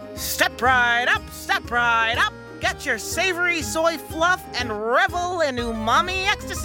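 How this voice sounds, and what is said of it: Yelling like a carnival barker. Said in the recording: “why are you yelling?”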